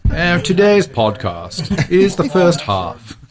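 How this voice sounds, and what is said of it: Put-on English accent. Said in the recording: “I'll do my best Anglican voice. ... English humor”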